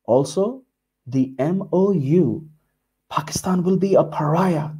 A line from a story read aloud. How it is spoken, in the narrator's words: they whisper